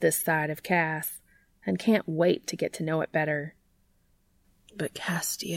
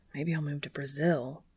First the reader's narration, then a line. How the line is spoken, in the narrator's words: he mutters under his breath